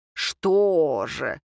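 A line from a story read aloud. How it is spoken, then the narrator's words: Mocking snort, young woman. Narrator (Russian): Девушка насмешливо хмыкнула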